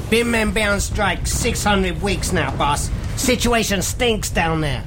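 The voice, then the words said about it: Exaggerated put-on accent. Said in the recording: “Goddamn jinky accent.”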